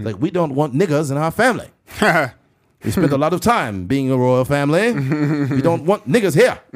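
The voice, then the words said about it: Put-on English/Asian accent. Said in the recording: “You got like an English/Asian accent going on.”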